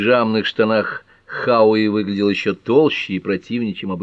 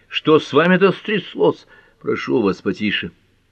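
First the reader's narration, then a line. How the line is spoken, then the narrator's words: Hoarse croak. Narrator (Russian): Детектив хрипло прокаркал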